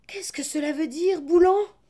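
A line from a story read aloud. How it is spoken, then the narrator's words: Alarmed cry. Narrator (French): s'écria le pauvre Jacques alarmé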